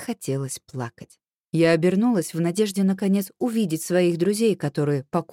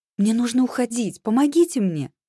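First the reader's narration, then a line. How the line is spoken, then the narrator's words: Agitated pleading. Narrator (Russian): взволнованным голосом просила я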